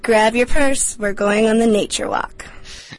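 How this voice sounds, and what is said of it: Sexy female voice. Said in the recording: “sexy voice girl”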